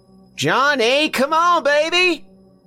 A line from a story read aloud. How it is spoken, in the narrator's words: She was yelling across the backyard now, her voice echoing all over the neighborhood